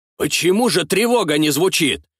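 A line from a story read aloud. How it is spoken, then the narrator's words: Shouted out. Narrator (Russian): выкрикнул адмирал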